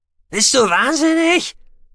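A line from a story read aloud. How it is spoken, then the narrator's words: Shouting. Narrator (German): schrie da Minterol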